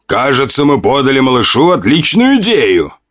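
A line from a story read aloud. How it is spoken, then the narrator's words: Demon laughing loudly. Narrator (Russian): Демон хохотал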